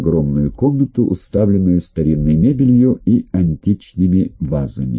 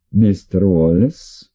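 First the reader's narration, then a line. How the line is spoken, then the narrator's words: Rather muffled voice. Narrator (Russian): Голос ее звучал довольно глухо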